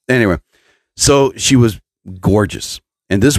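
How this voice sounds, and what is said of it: Usual voice. Nothing is said of it.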